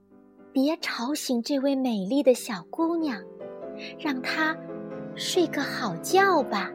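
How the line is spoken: Soft and happy. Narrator (Chinese): 他们高兴极了，轻声说

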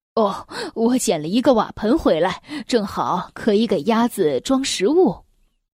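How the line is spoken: Cheerful, relieved. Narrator (Chinese): 沈万山本来垂头丧气的脸上立刻展露了笑容，对妻子说

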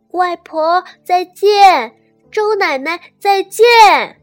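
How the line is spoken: Loud. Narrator (Chinese): 小乐大声地说

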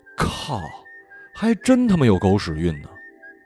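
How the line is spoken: Astonished exclamation. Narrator (Chinese): 只剩下感叹

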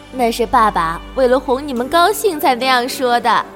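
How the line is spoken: Laughing mother. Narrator (Chinese): 妈妈 扑哧一声笑了出来，说

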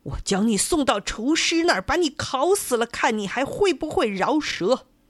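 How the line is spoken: Frantic angry roar. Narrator (Chinese): 地主这下可急坏了 大声吼叫起来

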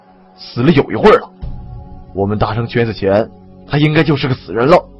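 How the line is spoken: Low voice. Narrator (Chinese): 王强低声说

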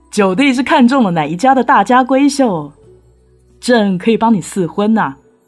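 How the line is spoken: Curious, laughing heartily. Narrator (Chinese): 皇帝一脸的好奇，大笑着说

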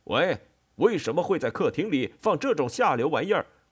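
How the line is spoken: Angry shouting. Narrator (Chinese): 冠太郎……没好气地……气鼓鼓地吼开了

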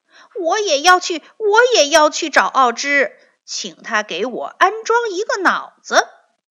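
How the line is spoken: Repeated eager clamoring. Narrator (Chinese): 连连嚷道

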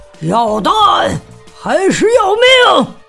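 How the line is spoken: Loud shouting. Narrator (Chinese): 田鼠普老大大声的喊叫着

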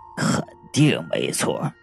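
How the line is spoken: Low voice. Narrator (Chinese): 王生低声的说道

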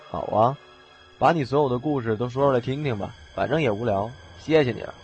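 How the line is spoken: Flat, indifferent. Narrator (Chinese): 他淡淡的说

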